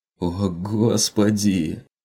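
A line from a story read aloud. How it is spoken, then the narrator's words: Groaned. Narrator (Russian): простонал тот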